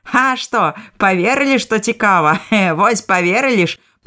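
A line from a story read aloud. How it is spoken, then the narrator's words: Laughing teacher. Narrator (Belarusian): засмяяўшыся, выкладчык скажа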